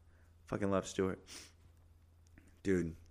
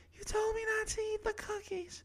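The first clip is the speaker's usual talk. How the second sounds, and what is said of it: Little yelling character voice. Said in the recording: “My little yelling voice sounds like Stuart, huh? From Mad TV.”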